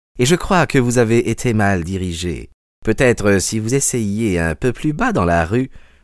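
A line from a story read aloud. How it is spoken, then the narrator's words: Unctuous voice. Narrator (French): dit-il d'une voix onctueuse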